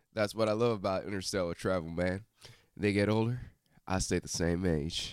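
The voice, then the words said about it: Imitates another person's voice, Texan drawl. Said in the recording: “give it your best Matthew McConaughey ... man from Texas ... you can go redneck”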